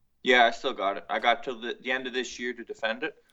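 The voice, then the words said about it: Heavy Cape Breton accent. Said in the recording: “You've got a heavy accent. ... Cape Breton.”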